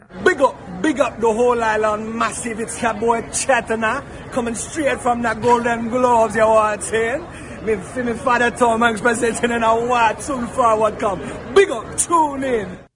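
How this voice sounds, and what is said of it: Put-on Jamaican patois accent. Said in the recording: “some sort of a weird Jamaican accent ... It's patois”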